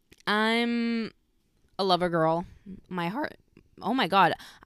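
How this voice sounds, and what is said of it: Emotional voice cracking. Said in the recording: “I don't know why my voice just cracked.”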